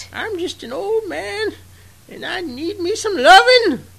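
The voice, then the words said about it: Imitated dubbed old-man character voice. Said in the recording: “I don't know how good that voice is. Some days I'm really on, and some days I'm really off. ... your one dub imitation. ... this Roshi voice”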